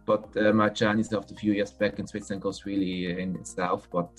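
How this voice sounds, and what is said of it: Heavy Swiss accent in English. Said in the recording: “my Swiss accent comes back quite heavy”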